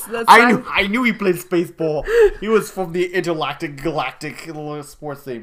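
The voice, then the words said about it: Terrible put-on mixed accent. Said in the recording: “your terrible accent ... It was a little bit Arnold and a little bit something else”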